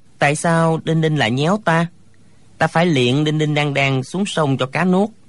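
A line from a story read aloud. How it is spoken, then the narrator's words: Playful, smiling. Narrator (Vietnamese): Thạch Phá Thiên lại nổi lòng trẻ con, mỉm cười nói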